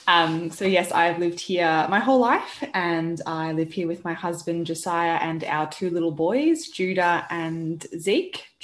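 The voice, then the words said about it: Australian accent. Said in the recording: “I live in Melbourne in Australia. You can probably all tell from my accent that I'm not from Britain.”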